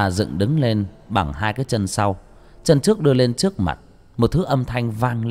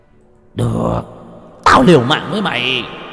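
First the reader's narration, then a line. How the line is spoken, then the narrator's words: Desperate roar. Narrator (Vietnamese): Biết không còn đường lui, Cẩu Thạch gầm lên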